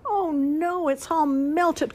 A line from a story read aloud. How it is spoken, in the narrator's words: cried Ian